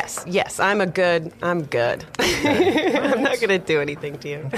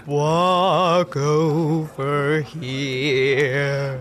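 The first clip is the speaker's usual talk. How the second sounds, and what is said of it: Deep alluring siren voice. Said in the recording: “That's a deep voice.”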